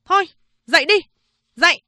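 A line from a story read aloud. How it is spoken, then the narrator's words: Woman barking. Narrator (Vietnamese): Chị ta quát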